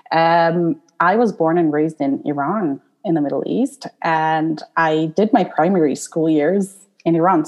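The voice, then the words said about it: Non-British English accent. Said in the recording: “I was not born in the UK, as you can probably see from my accent”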